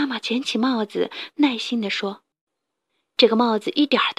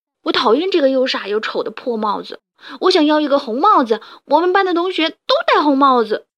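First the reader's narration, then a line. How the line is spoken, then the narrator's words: Loud angry yell. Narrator (Chinese): 小狗獾达尼……大声地叫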